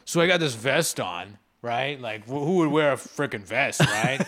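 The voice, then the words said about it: Imitates another person's voice. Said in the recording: “it's a pretty good Adam Ray impression”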